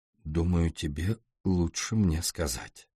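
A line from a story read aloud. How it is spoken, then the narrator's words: Quiet and calm. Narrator (Russian): Она произнесла так же тихо и спокойно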